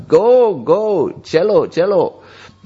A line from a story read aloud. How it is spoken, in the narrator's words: he just shouted out